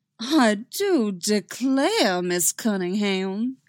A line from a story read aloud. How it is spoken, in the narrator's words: he says, affecting the goofiest southern drawl she's ever heard